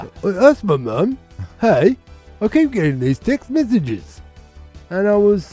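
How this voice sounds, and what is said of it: Usual voice. Nothing is said of it.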